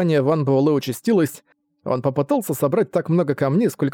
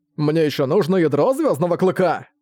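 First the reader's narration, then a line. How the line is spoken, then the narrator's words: Sudden shout. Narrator (Russian): Внезапно выкрикнул он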